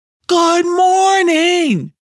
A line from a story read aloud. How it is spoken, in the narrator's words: Yelcom was just about to yell out